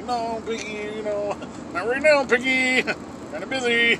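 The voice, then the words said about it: Lazy quick Kermit the Frog impression. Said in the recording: “Kermit was like ... That's not my impression, I was just a lazy, quick impression.”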